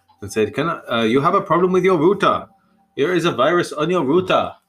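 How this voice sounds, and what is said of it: Put-on Indian accent. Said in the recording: “Why was he putting on a weird accent? ... he's Indian, I think ... Should I carry on doing that accent?”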